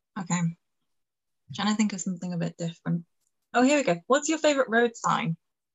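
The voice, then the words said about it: Speaks with a noticeable accent. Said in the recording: “sorry, it's my accent.”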